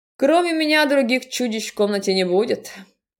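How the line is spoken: Amused chuckling voice. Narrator (Russian): хохотнуло голосом Глашки, оценивши мою шутку

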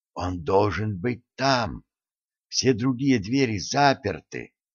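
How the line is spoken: Whispered. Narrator (Russian): она прошептала

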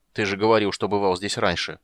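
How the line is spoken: Grumbling reply. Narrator (Russian): проворчал в ответ Гнимш

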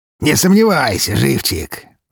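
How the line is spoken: Malicious smirk, general. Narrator (Russian): злобно усмехнулся генерал

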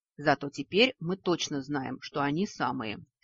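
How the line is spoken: Philosophical sigh. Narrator (Russian): Философски вздохнул высокий

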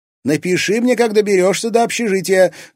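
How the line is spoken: Shouted after someone. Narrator (Russian): крикнула ему вдогонку Лиза

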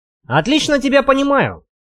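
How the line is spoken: With a snort. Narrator (Russian): хмыкнув, сказал Вадим

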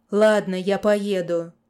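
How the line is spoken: Hollow, muffled voice. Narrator (Russian): глухо произнес Аким

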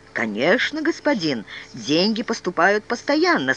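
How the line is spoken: Calm. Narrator (Russian): спокойно сказал Артур

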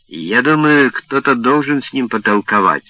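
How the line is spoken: Plain. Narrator (Russian): сказал он

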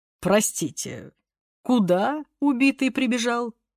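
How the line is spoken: Trembling voice. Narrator (Russian): уточнил прокурор дрогнувшим голосом

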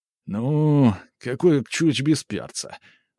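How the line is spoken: Mocking drawl. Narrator (Russian): насмешливо протянул

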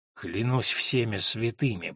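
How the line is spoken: Hissed. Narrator (Russian): прошипел епископ

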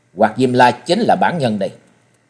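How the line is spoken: Cold statement. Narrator (Vietnamese): Trần Lâm lạnh lùng nói

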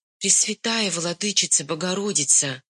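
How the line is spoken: Whispered prayer. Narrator (Russian): шептала Онюшка перед иконами

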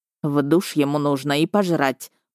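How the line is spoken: Muttered grumble, policeman. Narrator (Russian): проворчал под нос полицейский

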